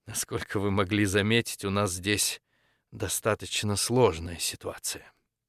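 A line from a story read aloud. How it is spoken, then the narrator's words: Quiet joyless laugh, woman. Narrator (Russian): Женщина тихо и невесело рассмеялась, ответила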